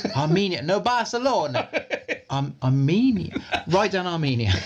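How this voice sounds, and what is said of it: Manuel from Fawlty Towers impression. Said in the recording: “It's his accent ... Just images from Fawlty Towers now.”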